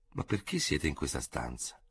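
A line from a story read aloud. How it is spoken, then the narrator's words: Astonished murmur. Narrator (Italian): mormorò al colmo dello stupore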